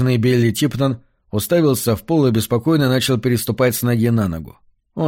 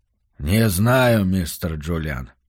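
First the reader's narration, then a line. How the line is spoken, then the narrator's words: Weak mutter. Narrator (Russian): слабо пробормотал он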